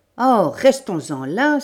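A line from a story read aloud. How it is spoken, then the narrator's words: Impatient exclamation. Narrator (French): s'écria, impatienté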